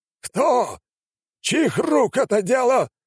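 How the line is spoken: Shout. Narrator (Russian): выкрикнул тот

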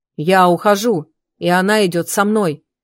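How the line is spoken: Calm firm voice. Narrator (Russian): спокойным, твердым голосом проговорил Маран

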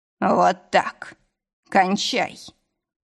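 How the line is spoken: Moaned. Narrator (Russian): простонал

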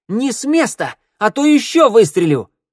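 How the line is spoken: Yelled. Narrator (Russian): завопила вихрастая Санда

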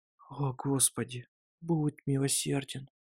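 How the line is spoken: Desperate whisper. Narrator (Russian): В отчаянии прошептала она

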